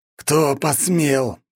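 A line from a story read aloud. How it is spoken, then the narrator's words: Growled. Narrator (Russian): прорычал Картополов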